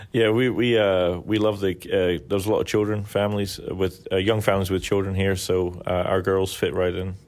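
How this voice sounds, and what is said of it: Mild Scottish accent. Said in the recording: “you're very wonderful accent. You don't sound like a Southerner ... I'm from Scotland ... my accent's diluted, but it hasn't disappeared”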